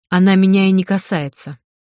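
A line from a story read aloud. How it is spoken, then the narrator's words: Cold remark. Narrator (Russian): холодно заметила я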